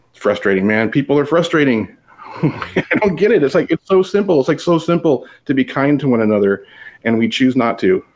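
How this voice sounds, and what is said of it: Raised, worked-up voice. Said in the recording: “I've gotten all worked up. I've raised my voice.”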